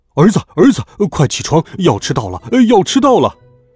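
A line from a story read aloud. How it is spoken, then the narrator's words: Father shouting loudly. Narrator (Chinese): 爸爸站在我的耳边大声喊道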